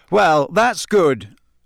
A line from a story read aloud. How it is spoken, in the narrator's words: said Harry loudly, his temper getting the better of him